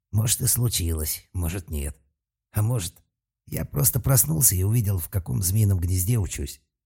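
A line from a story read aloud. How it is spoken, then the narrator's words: Muttered. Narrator (Russian): пробормотал Талфан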